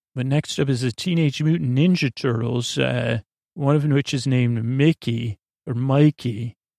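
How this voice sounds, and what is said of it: Sleep podcast voice. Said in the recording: “I'm using my sleep podcast voice because Scooter coached me in how to use a sleep podcast voice and not my normal voice”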